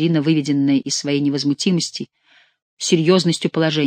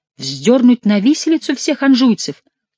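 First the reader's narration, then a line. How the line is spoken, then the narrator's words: Astonished exclamation. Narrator (Russian): воскликнула Екатерина с тем удивлением, которое испытывают люди незаурядного ума, когда им говорят какую-нибудь чудовищную глупость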